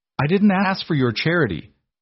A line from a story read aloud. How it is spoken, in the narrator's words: Beatrice snapped